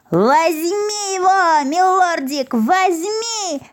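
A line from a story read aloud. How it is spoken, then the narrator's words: Joyful squeal. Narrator (Russian): радостно визжал Клопс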